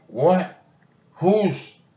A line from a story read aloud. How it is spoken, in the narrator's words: sputtered Annie